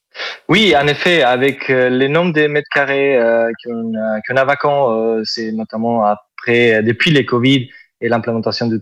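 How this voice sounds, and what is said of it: Southern French accent. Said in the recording (French): “Vous avez un superbe accent ... L'accent du sud. ... c'est joli”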